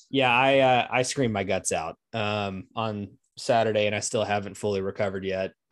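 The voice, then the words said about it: Hoarse voice. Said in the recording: “we're both a little hoarse ... I'm not a little horse. I'm a big horse.”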